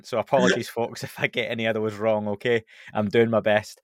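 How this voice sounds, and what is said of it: Scottish accent. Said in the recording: “that's hard with a Scottish accent”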